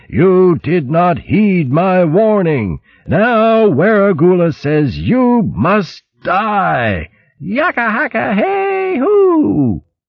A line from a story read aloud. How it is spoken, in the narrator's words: a mad, booming voice howled angrily